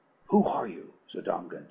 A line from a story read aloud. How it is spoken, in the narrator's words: she whispered